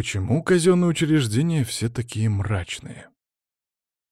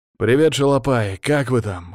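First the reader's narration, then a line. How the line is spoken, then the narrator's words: Amused grunt. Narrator (Russian): хмыкнул я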